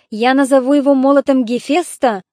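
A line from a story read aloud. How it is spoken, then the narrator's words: Proud exclamation. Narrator (Russian): с гордостью воскликнул Бонокл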